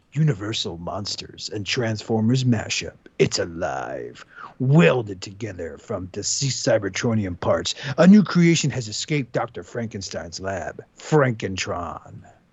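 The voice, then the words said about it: Dramatic movie trailer narrator voice. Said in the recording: “movie narrator voice.”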